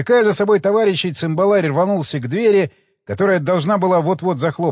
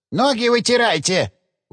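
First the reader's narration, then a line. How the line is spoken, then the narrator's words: Old woman's hurried squeak. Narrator (Russian): успела пискнуть старушка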